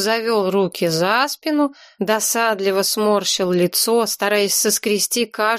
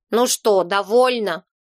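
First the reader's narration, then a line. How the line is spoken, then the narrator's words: Angry grumble, small man. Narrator (Russian): Сердито проворчал человечек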